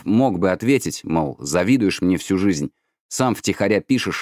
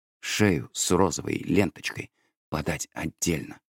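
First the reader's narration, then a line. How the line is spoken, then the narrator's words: Whispering. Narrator (Russian): шептал Санька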